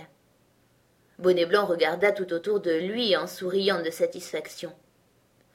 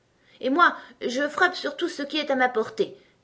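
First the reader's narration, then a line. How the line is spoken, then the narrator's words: Exclaimed. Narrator (French): s'écria Bonnet Blanc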